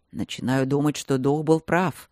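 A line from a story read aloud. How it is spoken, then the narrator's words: Grumbling in borrowed voice. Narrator (Russian): проворчал силуэт голосом Мартина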